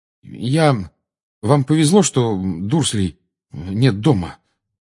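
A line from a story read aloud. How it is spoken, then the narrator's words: Mutter. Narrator (Russian): пробормотал он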